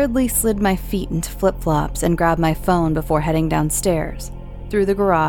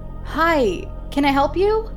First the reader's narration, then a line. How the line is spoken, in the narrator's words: I called out to him